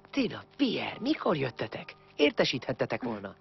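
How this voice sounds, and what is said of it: Whispering. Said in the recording (Hungarian): “Minek suttogsz?”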